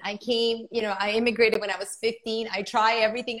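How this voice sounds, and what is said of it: Non-native English accent. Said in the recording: “my accent. I can't lose this accent.”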